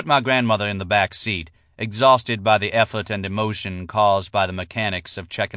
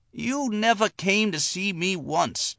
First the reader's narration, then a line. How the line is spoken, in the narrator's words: Jenny Penn hissed